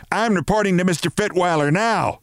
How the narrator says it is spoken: she shouted

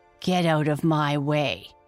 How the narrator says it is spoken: snarled

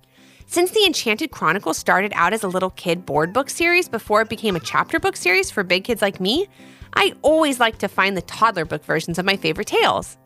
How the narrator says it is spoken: said Ivy

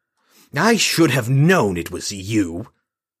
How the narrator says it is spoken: Lauren stalked closer, his snarl fitting a lion about to strike

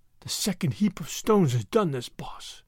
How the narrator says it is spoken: said Hans faintly

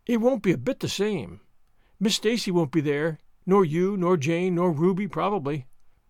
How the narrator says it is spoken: Diana said

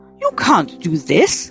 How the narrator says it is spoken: Mother exclaimed

